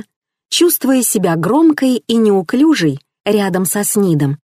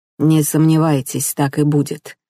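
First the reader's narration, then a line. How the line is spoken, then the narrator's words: Muttered. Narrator (Russian): пробормотал он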